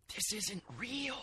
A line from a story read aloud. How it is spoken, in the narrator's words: Caspi whispered